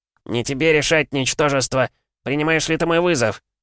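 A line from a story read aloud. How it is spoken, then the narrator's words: Loud roar. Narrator (Russian): Взревел на всю округу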